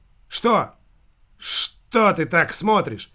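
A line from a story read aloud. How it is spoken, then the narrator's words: Exclaiming. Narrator (Russian): воскликнул Никита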